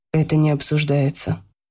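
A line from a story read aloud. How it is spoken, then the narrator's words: Calm. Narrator (Russian): спокойно сказал Марк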